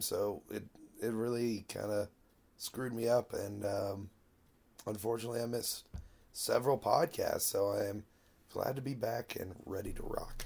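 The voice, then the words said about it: Voice still sounds ill. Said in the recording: “I got pretty sick there at the end of 2016. You can probably still hear it in my voice”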